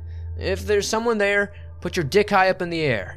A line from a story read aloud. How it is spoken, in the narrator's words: Being quite drunk and acting brave, I loudly shouted